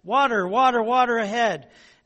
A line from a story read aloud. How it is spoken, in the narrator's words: someone near the front of the procession shouted